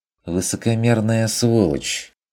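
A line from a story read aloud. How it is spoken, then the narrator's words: Mocking remark. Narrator (Russian): заметил Бруно насмешливо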